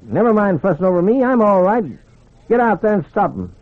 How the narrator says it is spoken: He barked

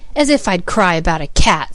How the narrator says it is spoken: scoffed Peter

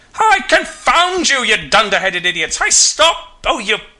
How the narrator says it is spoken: roars himself red in the face and curses everything he knows

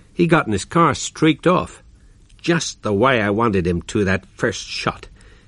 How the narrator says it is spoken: added bitterly

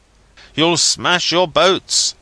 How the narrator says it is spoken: I cried out again and again, as the sea crashed on the cabin over my head

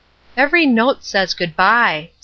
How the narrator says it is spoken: said Ruth, and she gave a little sigh

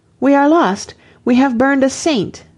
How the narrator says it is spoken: As the flames mounted about her, an Englishman cried out

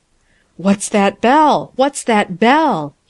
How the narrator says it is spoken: gasped

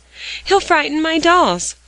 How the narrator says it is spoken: cried Phronsie in new alarm

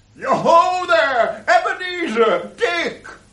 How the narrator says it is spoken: laughed all over himself, and called out

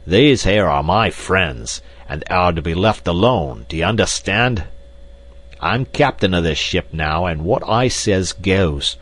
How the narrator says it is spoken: With a loud roar, Black Michael attracted the attention of the others, and pointing to Lord and Lady Greystoke, cried

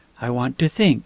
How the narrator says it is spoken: said quietly

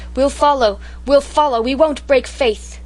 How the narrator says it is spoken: The soldiers cheered her like mad and cried

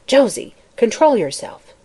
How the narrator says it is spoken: a stern voice said warningly

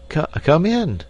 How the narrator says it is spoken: stammered Dame Brinker

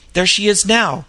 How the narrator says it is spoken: exclaimed

